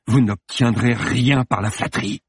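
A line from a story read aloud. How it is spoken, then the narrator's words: Hissed. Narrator (French): siffla-t-il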